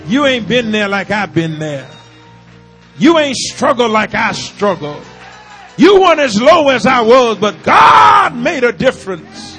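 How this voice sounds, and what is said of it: Shouting, loud preaching. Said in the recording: “I'm shouting.”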